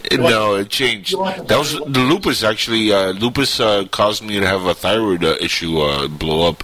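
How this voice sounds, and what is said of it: Very deep bass voice. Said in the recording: “you had that Barry White voice going on now ... this very deep, very, very Barry White-ish ... Voice”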